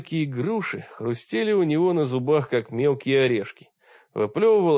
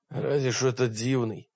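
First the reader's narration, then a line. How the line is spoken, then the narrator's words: Gruff, stronger voice. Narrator (Russian): буркнул он окрепшим голосом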